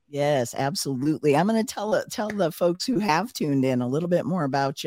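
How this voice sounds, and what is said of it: Hoarse, fading voice. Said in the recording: “I'm losing my voice here a little bit.”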